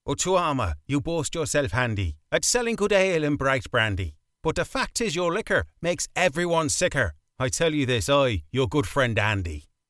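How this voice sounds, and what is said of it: Put-on Irish accent. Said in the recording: “you can do your Irish accent now”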